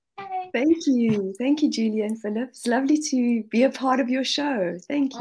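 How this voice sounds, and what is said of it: Speaks with a noticeable accent. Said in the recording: “We love the accent.”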